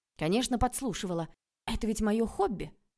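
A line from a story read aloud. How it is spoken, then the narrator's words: Angry reply. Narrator (Russian): Ответила я злобно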